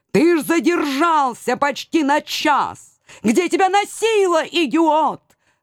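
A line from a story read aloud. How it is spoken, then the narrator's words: Tearful wail. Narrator (Russian): Со слезами в голосе завопил он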